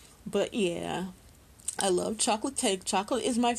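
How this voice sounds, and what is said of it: Usual voice. Nothing is said of it.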